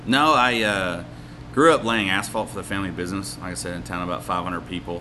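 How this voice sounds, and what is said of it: Arkansas Southern American accent. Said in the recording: “you said you're from Arkansas... I thought the accent sounded familiar. My boss is from Arkansas.”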